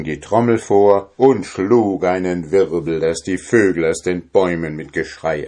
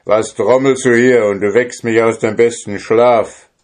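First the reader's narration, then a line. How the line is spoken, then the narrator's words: Called out. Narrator (German): rief ihm zu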